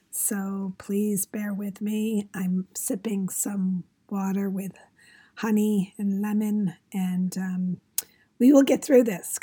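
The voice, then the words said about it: Strained, partly lost voice. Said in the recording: “I am having a little voice issue. I lost my voice yesterday”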